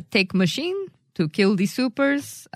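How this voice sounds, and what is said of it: Bad fake Russian accent. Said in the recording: “A horrible Russian accent.”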